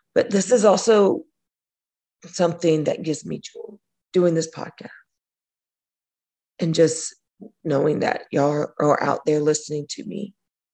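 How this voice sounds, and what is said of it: Strained, fading voice. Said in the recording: “as you can tell, I'm losing my voice”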